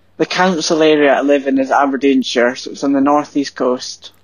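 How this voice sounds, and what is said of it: Fairly strong Scottish accent. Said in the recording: “you've got quite a strong accent ... not as strong as Matty's accent, I don't think ... whereabouts in Scotland are you from”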